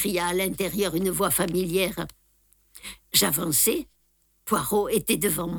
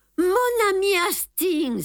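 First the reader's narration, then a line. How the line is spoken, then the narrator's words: Exclaiming. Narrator (French): s'écria-t-il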